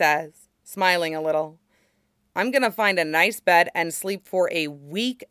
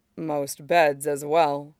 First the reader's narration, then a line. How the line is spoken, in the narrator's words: Mace says gravely